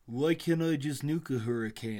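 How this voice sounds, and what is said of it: Imitates another person's voice, poorly. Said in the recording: “that's not a good Trump accent.”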